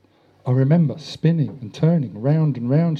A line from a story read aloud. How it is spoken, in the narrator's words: said, her voice quivering with emotion